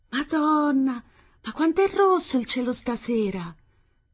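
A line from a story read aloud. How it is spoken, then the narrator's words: Exclaimed. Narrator (Italian): esclamò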